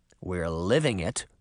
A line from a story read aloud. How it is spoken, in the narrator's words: Sabrina murmured